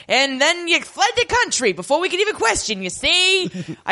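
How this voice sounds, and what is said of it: Boardwalk Empire-style put-on accent. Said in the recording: “I did all my accent work watching episodes of Boardwalk Empire.”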